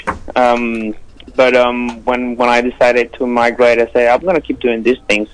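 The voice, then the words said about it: Non-native Spanish-speaker English accent. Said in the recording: “I was very worried about my accent and my pronunciation”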